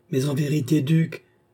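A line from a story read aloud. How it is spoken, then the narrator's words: Crying out. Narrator (French): s'écria Madame du Barry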